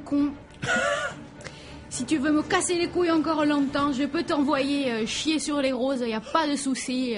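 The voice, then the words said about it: Alsatian French accent. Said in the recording (French): “ce magnifique accent alsacien”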